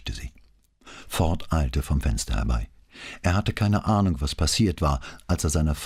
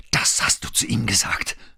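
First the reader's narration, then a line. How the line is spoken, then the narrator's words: Hissing. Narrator (German): zischte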